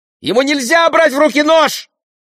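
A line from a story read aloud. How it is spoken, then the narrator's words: Shriek in Spanish. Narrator (Russian): взвизгнула Беатрис по-испански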